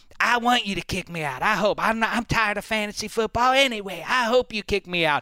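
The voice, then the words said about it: Bill Simmons impression, Boston-ish accent. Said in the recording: “What was that voice? ... That's Simmons. That's how he talks. ... That's your Boston accent? ... It's like a modified, like, snake oil salesman in a musical. ... my Simmons impression”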